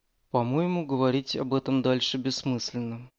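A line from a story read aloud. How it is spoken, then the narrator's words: Tired. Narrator (Russian): устало произнес Фрэнсис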